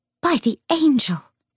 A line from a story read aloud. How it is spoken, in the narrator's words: she exclaimed